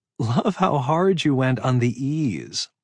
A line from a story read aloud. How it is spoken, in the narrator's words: Sophie said around a giggle